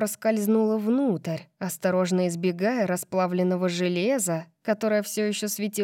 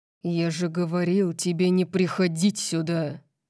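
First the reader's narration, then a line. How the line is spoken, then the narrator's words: Growl. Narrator (Russian): Орион зарычал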